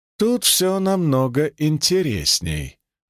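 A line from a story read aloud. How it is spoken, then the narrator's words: Mysterious tone. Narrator (Russian): загадочным тоном ответила Ада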